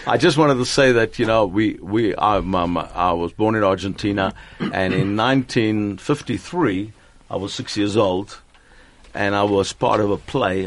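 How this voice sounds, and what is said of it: Slight Argentinian accent in English. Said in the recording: “I always hear this tinge of some sort of accent when you speak English. Although you speak English so beautifully ... an Argentinian”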